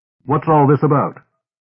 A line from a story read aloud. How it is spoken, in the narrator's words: John said sharply